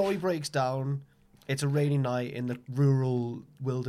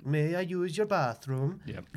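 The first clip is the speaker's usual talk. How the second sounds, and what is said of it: Put-on Danish accent. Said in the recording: “my excellent Danish accent”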